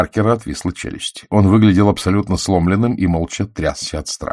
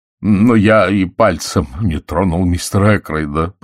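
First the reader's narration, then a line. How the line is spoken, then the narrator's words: Groaning. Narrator (Russian): простонал он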